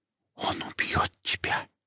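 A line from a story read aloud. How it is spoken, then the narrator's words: Whisper. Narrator (Russian): прошептала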